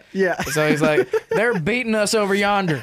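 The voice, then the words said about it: Southern accent. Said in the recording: “Rory Scovel doing a southern accent”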